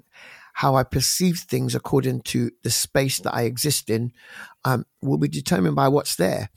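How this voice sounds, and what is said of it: London accent. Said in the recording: “my accent is basically a London accent”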